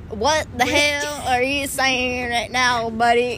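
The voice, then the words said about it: Slow put-on country accent. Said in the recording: “I can do the country voice. ... I need to talk real slow.”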